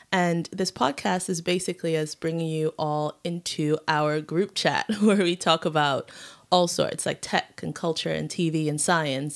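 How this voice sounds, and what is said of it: Confused American drawl accent. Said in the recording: “this confused sort of American, maybe sometimes Yorkshire in my dreams, drawl”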